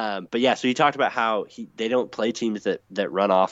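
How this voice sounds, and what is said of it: Usual voice. Nothing is said of it.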